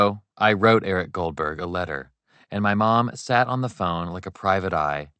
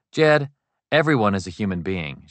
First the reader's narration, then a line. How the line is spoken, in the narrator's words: said